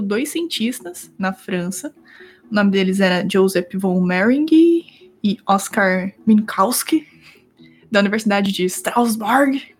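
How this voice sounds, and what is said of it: Put-on German accent. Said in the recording (Portuguese): “eu falei com sotaque alemão aqui”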